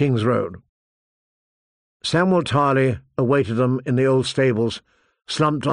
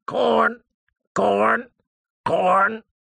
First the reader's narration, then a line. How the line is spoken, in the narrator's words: The bird shrieked